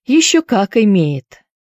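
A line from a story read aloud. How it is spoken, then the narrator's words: Bitter sigh. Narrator (Russian): горько вздохнула Присцилла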